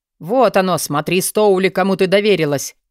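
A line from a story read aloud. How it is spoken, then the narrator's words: Shouted. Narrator (Russian): прокричал Алви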